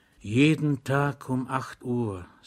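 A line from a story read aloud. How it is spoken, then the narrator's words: Whisper. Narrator (German): sagte der Zivilist flüsternd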